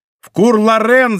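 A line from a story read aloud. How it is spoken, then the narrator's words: Shouted. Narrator (Russian): закричал Д'Артаньян кучеру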